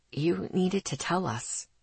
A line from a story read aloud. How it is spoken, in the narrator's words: he whispered to me